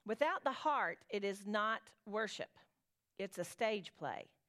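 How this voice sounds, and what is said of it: Southern American accent. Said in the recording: “My Southern accent never does it justice when I read it aloud”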